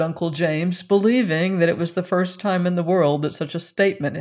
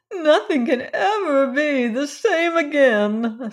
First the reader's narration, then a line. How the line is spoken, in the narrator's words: sobbed Cousin Stickles